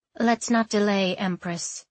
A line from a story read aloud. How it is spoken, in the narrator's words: she said